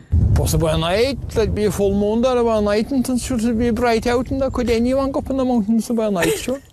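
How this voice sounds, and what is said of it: Mild Irish accent. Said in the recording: “I don't have a fucking clue what he just said ... I actually found the accent to be very mild ... the Irish accent”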